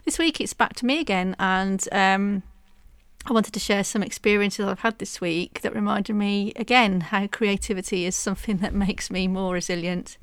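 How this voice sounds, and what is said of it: Congested voice from a chesty cold. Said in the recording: “I've had a really bad chesty cough and cold, as you can probably hear in my voice”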